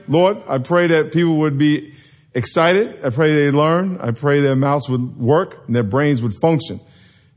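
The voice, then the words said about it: Worn-out, failing voice. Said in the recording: “my voice is going”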